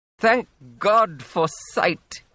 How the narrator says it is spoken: he cried

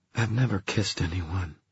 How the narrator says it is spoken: she said in a low voice

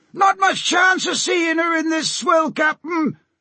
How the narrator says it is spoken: shouted the helmsman over the roar of the storm

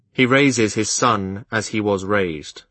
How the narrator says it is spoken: I replied stiffly

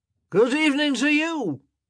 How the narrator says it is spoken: came a drunken shout from the back of the room

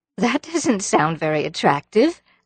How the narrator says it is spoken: laughed Anne

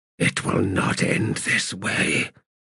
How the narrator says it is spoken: he whispered

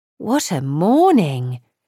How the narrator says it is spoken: Kitty exclaimed

